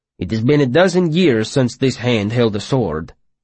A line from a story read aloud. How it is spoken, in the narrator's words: Naden said